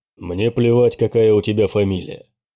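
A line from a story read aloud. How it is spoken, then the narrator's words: Grumbling. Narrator (Russian): проворчал Курт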